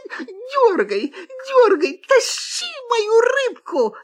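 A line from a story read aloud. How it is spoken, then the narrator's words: Shouted, fox. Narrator (Russian): закричала лиса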